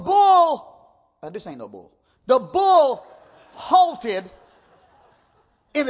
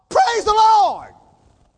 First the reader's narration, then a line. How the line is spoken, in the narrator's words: he shouted out